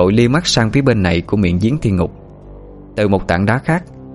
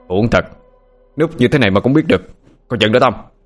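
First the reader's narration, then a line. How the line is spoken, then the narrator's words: Shout. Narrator (Vietnamese): Anh quát lên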